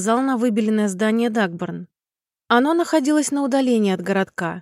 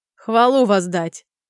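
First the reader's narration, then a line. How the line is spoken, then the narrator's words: Soldier's short laugh. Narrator (Russian): хохотнул легионер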